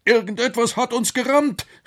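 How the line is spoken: Professor calling out. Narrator (German): rief der Professor

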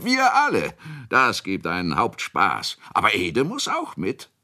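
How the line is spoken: Shouted. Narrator (German): schrie Kunicke

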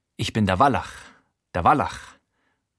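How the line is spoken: Amused, dramatic mutter. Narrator (German): murmelt er vergnügt und dramatisch vor sich hin

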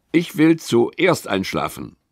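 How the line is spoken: Plain. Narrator (German): sagt Lilly

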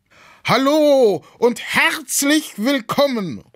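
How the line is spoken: Called out. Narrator (German): ruft er

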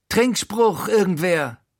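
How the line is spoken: Calling out. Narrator (German): ruft er

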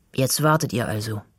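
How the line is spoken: Plain. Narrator (German): sagt Finley

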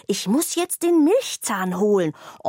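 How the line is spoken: Hiss. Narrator (German): zischt Zora

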